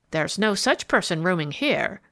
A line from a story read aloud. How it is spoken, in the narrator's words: replied sharply